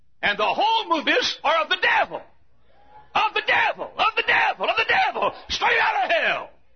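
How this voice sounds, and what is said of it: Screaming preacher. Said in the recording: “I'm not screaming up here as an old idiot. I'm screaming up here”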